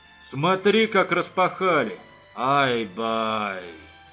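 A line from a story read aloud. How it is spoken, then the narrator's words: Habitual exhaled exclamation. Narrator (Russian): Выдохнул свое обычное восклицание Фархад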